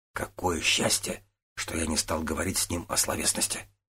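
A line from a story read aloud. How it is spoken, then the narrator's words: Whispered. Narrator (Russian): шепнул Тан Ао, обращаясь к До Цугуну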